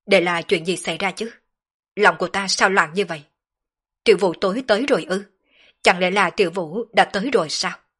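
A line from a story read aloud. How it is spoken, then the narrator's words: Agitated muttering. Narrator (Vietnamese): Sở Dương đột nhiên trở nên tâm phiền ý loạn, không chế không nổi tâm tình muốn phát tiết, hắn lẩm bẩm nói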